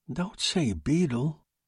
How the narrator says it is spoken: Tony murmured

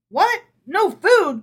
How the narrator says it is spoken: cried Herschel

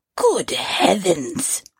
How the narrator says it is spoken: he cried

